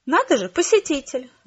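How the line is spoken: Exclamation from behind. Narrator (Russian): воскликнул кто-то у меня за спиной

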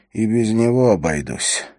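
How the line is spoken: Muttering. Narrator (Russian): Хорос пробормотал

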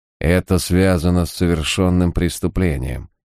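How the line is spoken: Grim. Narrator (Russian): мрачно добавил Харснет

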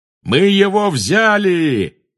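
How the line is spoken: Triumphant yell. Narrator (Russian): завопил пожиратель смерти

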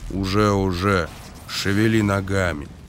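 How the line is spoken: Gruff mutter. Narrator (Russian): Эйс буркнул

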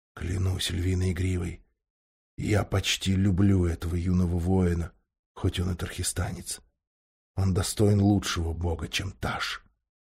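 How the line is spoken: Whisper in ear. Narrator (Russian): Алмаз прошептал на ухо королю

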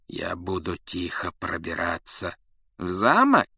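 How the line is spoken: Silky insinuating question. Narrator (Russian): вкрадчиво переспросил Снег

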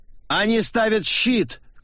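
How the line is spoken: Shouted reply. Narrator (Russian): крикнула в ответ чародейка

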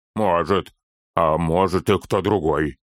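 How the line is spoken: Grumbling. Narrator (Russian): проворчал Торин

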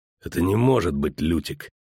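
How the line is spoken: Hollow, muffled. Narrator (Russian): сказал он глухо

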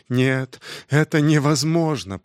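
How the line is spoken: Moaning. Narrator (Russian): простонала она

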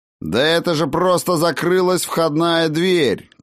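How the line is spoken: Unconvinced shout. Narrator (Russian): крикнул Тан, сам не слишком веря в эти слова

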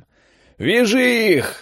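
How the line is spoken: Deafening yell. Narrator (Russian): заорали так, что Олег на миг оглох

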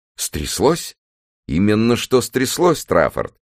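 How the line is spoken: Exclaiming. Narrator (Russian): воскликнул Бейли

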